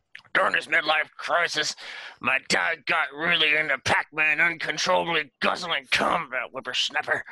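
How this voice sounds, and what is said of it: Grumpy old man voice. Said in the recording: “your accent is grumpy old man.”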